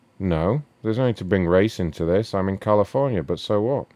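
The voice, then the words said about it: English accent. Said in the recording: “Why are you speaking like that, man? ... Like, you call from England, or...? ... You have, like, that English accent.”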